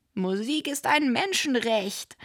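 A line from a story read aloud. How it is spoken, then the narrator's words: Called out. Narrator (German): rief Tamara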